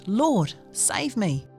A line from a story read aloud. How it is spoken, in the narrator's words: he was afraid and beginning to sink, cried out